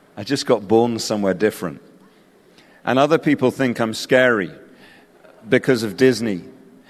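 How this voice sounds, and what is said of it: English accent. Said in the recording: “my weird English accent ... I have an English accent”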